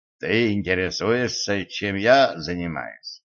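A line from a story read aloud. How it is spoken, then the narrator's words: Plain. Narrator (Russian): спросил Митч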